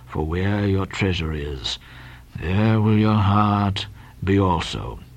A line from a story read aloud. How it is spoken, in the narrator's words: again said Bildad … went on mumbling